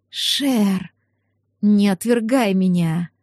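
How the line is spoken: Languid breathy young woman. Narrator (Russian): Томно выдохнула девица

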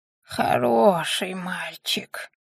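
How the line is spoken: Beggar woman breathing out. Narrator (Russian): выдохнула нищенка

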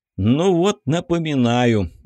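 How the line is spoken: Tired, smiling. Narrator (Russian): устало улыбнулся Егор

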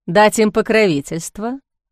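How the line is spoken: Skeptical snort. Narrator (Russian): Он хмыкнул

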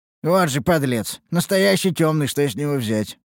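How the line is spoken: Scornful snort. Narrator (Russian): хмыкнул я

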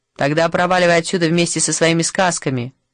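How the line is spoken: Gruff bark. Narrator (Russian): гаркнул докер

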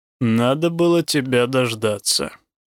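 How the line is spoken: Grumbling to himself. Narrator (Russian): как бы самому себе проворчал

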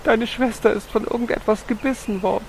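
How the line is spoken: Mother sobbing. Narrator (German): Seine Mutter schluchzte

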